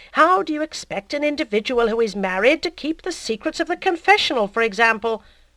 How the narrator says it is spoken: cried the ecclesiastic

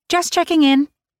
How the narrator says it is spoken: Annabelle said brightly

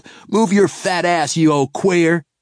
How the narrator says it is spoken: yelled

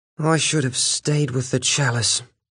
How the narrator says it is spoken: he said miserably

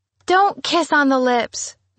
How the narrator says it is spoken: Nicole cried

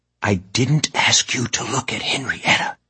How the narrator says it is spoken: Mora replied in a stage whisper

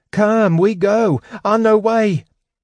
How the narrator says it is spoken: Bupu shrieked

